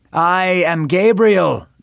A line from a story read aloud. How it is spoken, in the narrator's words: the angel shouted